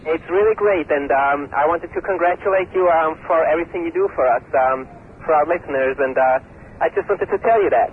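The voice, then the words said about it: Put-on caller accent. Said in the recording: “get a new accent”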